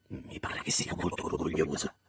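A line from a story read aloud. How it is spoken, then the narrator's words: Whispered. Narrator (Italian): sussurrai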